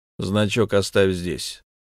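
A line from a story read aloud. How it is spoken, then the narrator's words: Calm. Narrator (Russian): спокойно сказал я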